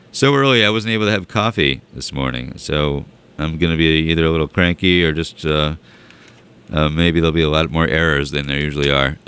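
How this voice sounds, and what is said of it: Hoarse, raspy voice. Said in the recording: “my voice is a little hoarse and raspy.”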